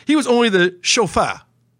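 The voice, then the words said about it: Mock French accent. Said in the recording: “I didn't have to do that with the French accent, did I?”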